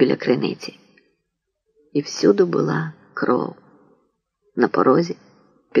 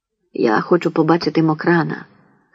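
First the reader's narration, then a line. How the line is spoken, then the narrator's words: Hoarse. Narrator (Ukrainian): хрипко промовила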